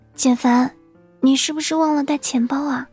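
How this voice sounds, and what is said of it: Quiet, hushed voice. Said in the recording (Chinese): “小声地说”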